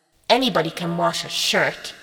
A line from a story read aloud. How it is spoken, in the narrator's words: she sneered